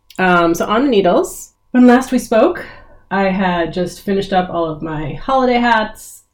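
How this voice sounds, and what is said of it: Congested voice from a cold. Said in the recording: “I have a little cold, so I apologize for a less than ideal vocal sound from me”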